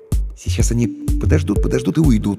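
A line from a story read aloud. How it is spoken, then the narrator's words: Uncertain guess. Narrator (Russian): неуверенно предположил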